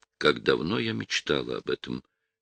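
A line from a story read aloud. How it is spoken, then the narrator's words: Barely audible confession. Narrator (Russian): тихо призналась Нина, и он скорее додумал ее слова, чем расслышал их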